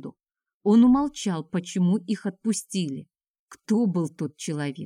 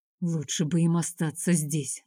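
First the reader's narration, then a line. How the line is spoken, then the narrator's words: Mutter. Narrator (Russian): наконец пробормотал Миленко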